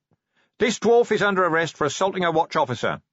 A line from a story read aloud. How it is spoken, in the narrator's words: he shouted